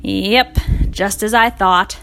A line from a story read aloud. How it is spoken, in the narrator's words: sighed the man